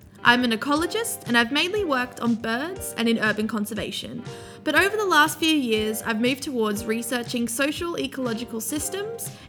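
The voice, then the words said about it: Australian accent. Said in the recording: “you may be able to tell by my accent that I'm from Australia”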